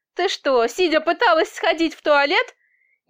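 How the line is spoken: Chuckling. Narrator (Russian): Я хохотнул

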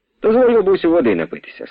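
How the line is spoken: Plain. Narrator (Ukrainian): сказав

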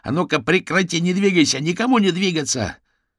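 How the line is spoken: Yelling. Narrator (Russian): гусеница заорал

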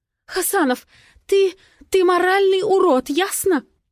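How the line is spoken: Sobbing. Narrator (Russian): всхлипывает

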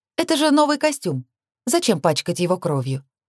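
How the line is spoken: Almost innocent question. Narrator (Russian): спросила почти невинным тоном

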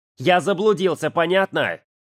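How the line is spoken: Sudden involuntary yell. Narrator (Russian): заорал Ярик неожиданно даже для самого себя

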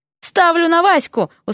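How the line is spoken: Quick shout. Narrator (Russian): успел крикнуть Дерек

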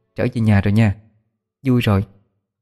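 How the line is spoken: Soft murmur. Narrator (Vietnamese): Nó thủ thỉ

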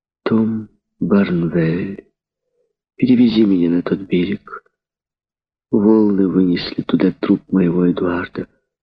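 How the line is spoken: Sad. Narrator (Russian): проговорила печально

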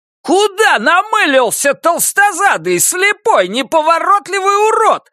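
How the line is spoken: Shrieked. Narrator (Russian): завизжал я

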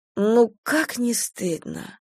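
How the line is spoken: Sigh. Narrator (Russian): вздохнула Надежда

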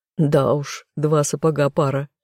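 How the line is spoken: Laughing. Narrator (Russian): хохотнул Тессон

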